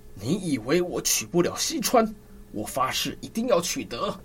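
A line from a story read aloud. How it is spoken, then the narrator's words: Through gritted teeth. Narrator (Chinese): 周瑜咬牙切齿地说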